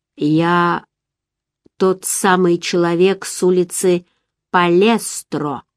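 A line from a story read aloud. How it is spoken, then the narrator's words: Slow. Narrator (Russian): наконец произнес он медленно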